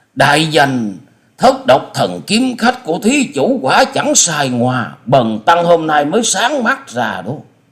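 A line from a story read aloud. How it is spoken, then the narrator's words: Excited exclamation. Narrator (Vietnamese): Diên Ngữ đại sư không dằn được tâm tình khích động, chép miệng reo lên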